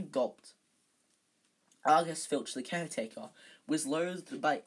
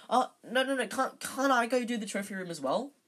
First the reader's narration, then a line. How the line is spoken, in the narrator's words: said Harry desperately